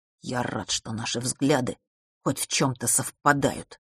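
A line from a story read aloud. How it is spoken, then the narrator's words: Quiet, contemptuous. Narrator (Russian): презрительно, но тихо сказал брат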